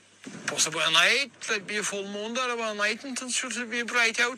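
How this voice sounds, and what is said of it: Strong rural Irish accent. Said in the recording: “a real fucked up accent ... this is like an Irish farmer ... listen to this for a fucking accent”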